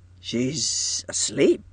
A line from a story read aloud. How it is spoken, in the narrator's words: he murmured in a puzzled way